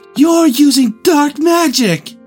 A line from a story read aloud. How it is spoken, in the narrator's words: gasped Hermione in a narrow-minded voice